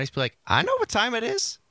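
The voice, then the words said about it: Imitated voice with lilt at end. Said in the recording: “spot on impression of you ... It's that little lilt at the end.”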